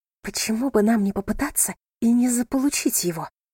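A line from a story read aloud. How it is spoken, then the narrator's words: Whisper. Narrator (Russian): прошептала она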